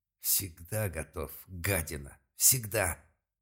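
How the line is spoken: Angry, through gritted teeth. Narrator (Russian): зло процедил Малк

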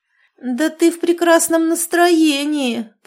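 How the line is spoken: Muffled groan into pillow. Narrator (Russian): простонала подруга, уткнувшись носом в подушку

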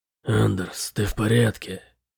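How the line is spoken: Whispered question. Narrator (Russian): шепотом спросил Бытрим

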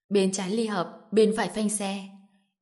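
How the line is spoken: Muttering. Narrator (Vietnamese): còn lẩm bẩm

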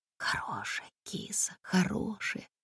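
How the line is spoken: Tearful whisper, choked throat. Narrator (Russian): зашептала Комарова, чувствуя, как горло подкатывается ком, и хочется разреветься

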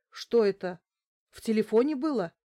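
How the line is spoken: Frightened question. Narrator (Russian): испуганно спросил Каримов

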